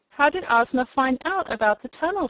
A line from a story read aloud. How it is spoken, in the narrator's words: she asked